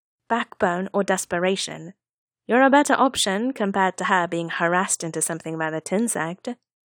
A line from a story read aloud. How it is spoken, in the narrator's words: Nie Huaisang said dryly